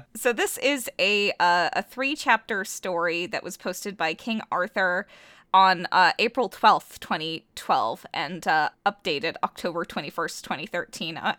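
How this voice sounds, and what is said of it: Hoarse, fading sick voice. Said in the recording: “I am still sick and am losing my voice.”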